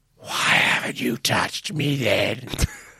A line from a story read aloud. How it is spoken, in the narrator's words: I hiss